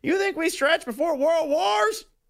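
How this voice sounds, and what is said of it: Poor Bob Wiley impression. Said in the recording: “terrible Bob Wiley impression,”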